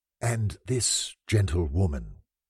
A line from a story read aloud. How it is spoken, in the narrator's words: said I to Monsieur Maillard, addressing him in a whisper